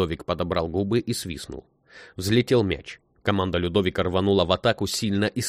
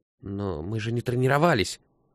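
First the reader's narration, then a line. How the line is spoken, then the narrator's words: Timid objection. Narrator (Russian): робко возразил Антон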